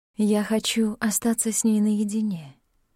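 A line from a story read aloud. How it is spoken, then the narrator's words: Melodic pleasant request. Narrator (Russian): попросила Скогге мелодичным приятным голосом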